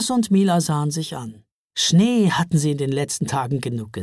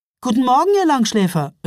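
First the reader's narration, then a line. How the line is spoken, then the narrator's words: Cheerful call. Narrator (German): rief sie vergnügt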